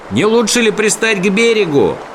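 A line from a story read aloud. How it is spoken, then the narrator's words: Shouting over river noise. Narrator (Russian): прокричал Сниф сквозь гул реки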